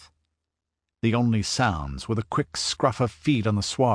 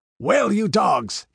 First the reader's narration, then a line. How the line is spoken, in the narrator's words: he roared